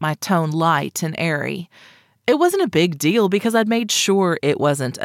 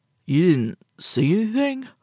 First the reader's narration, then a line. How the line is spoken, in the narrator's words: He spoke around a yawn